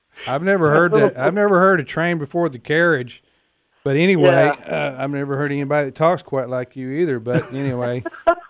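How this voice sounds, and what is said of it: Accent like the Andy Griffith Show. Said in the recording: “I love your accent. It really is neat. It reminds me of the Andy Griffith Show.”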